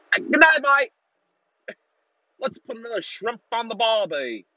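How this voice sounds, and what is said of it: Put-on Australian accent. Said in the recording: “I can't even do an Aussie accent right now”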